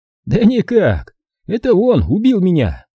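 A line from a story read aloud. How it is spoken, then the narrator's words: Laughing. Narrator (Russian): Зик рассмеялся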